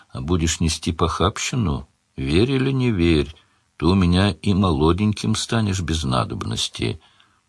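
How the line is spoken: Gentle, old woman. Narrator (Russian): Старуха ласково сказала вслед

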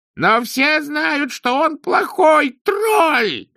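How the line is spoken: Wailing scream. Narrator (Russian): завопил

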